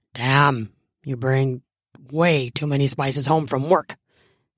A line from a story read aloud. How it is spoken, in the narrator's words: he mutters